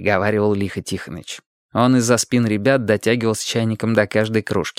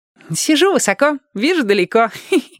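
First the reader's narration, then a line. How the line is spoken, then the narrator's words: Giggling. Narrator (Russian): хихикнул Владик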